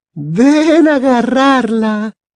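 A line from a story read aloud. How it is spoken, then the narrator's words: Laughing. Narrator (Spanish): decía entre risas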